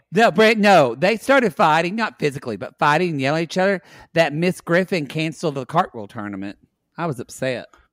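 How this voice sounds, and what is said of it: Thick regional accent. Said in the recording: “Your accent is getting so thick... I have a hard time understanding him sometimes”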